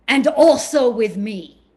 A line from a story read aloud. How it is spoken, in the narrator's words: he huffed and said loudly